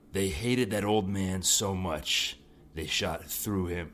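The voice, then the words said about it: Gruff comic antihero character voice. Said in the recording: “it in your Punisher voice ... I'm worried that it's going to sound a lot like my Batman voice”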